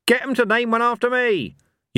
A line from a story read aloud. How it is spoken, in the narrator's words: yelled Cohen